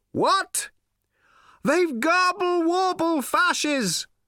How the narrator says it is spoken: cried Slarty Bartfast

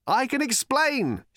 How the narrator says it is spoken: shouted Arthur

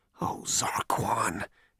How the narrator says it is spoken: he muttered to himself

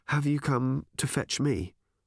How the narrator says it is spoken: she asked calmly

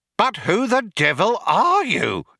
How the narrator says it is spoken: exclaimed an outraged Fook

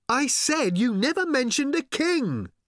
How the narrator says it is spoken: shouted Arthur again

